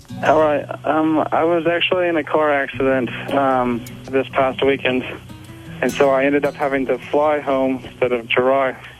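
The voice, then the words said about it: Australian accent. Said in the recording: “you have a delightful accent ... I'm actually from Melbourne, Australia.”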